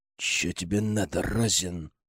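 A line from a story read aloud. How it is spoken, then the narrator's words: Growled. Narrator (Russian): прорычал он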